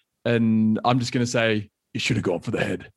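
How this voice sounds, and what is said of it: Imitates Thanos character voice. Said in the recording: “my best Thanos impersonation ... I don't think that was a very good voice. Sounded a bit more like Jigsaw there from Saw”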